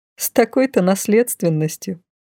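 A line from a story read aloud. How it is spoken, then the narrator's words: Snorting. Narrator (Russian): хмыкнула я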